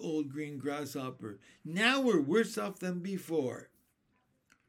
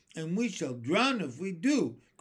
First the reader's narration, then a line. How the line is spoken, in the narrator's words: cried the earthworm